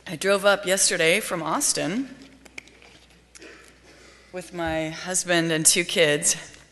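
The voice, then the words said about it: Slightly congested, stuffy voice. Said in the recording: “I have a bit of a cold”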